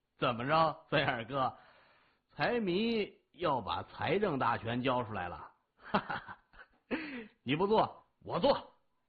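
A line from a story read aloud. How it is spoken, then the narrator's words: Laughing. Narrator (Chinese): 李爽哈哈一笑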